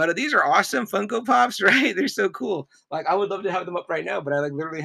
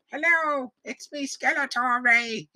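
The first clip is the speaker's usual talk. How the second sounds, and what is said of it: Bad impression of Skeletor's voice. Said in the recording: “my voice impersonation ... my bad impersonations”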